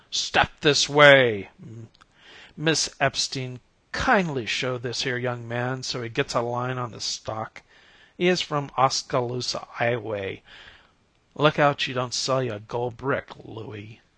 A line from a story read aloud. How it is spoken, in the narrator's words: he bellowed